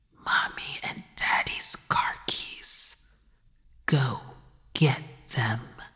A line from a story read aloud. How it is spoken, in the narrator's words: The child killer whispered